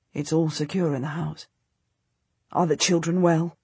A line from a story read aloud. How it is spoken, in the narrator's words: Richard, my husband, says quietly